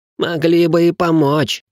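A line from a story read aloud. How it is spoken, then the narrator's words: Groaning, young count. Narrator (Russian): простонал графёныш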